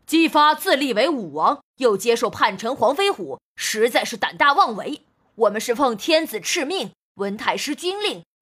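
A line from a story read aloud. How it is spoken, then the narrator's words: Loud answer. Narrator (Chinese): 朝雷大声回答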